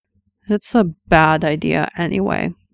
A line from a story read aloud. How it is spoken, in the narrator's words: Errol said, and his voice was dull again